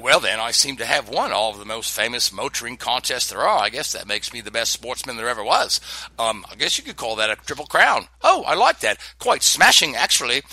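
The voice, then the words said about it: Poor put-on British accent. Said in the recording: “the lousy British accent.”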